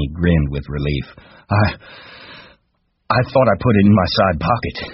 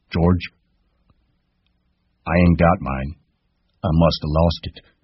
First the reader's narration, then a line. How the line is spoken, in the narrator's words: He said gently